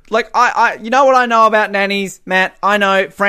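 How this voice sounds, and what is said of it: Usual voice. Nothing is said of it.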